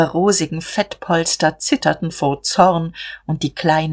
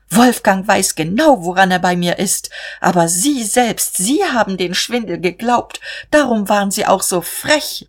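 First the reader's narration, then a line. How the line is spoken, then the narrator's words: Calling out. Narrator (German): rief sie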